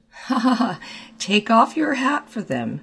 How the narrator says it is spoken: said the latter, laughing

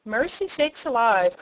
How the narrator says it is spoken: cried Mrs

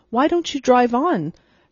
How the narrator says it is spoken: said Miss Lantry impatiently

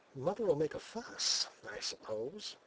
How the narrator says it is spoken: he whispered

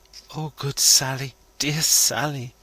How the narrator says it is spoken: moans the lady, entreatingly

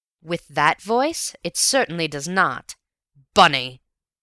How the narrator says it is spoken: he cried so fiercely that I braced myself for a blow

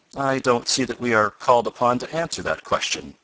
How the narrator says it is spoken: replied Professor Bumper stiffly

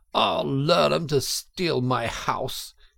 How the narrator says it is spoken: he cried

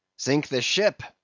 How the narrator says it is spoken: cried Steelkilt

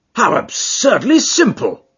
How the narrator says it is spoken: cried

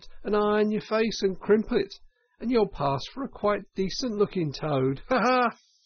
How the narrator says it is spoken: she cried out

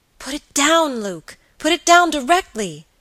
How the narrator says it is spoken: cried the girl with a look of terror

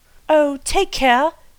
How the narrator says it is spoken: cried Anthea in an agony of apprehension

